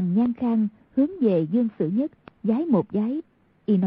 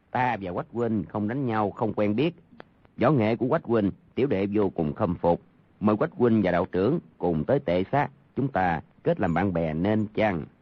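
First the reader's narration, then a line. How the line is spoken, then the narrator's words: Soft laugh, polite. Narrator (Vietnamese): Hoàng Nhan Khang cười khẽ nói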